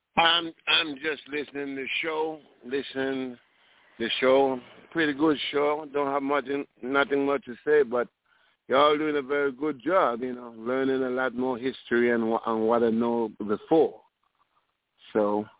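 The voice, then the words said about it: Caribbean accent. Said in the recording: “I hear the accent”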